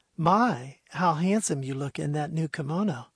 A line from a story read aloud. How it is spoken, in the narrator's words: purred the fair lady